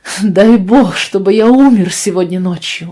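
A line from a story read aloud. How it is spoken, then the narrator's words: Exclamation. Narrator (Russian): воскликнул он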